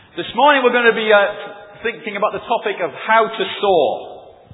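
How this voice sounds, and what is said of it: Northern English accent. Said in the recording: “As you can tell from my accent saying laugh and not laugh, ... I am from the north”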